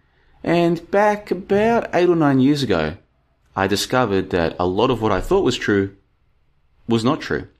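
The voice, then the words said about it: Australian accent. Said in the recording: “I grew up in Australia, as you can probably tell from my accent.”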